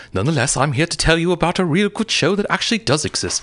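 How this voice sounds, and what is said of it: Fake, unplaceable British accent. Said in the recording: “a fake British accent that you can't quite place because it doesn't actually exist”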